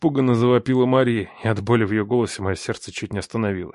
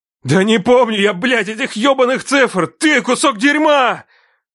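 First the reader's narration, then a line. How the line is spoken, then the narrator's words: Yelling. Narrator (Russian): Я орал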